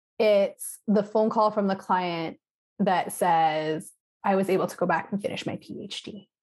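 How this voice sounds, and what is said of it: Emotional, moved voice. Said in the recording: “you can probably hear the emotion in my voice.”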